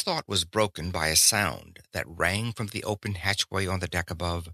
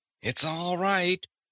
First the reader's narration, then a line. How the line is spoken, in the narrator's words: Thad called, intending to reassure the frightened animal, but finding his voice queerly dry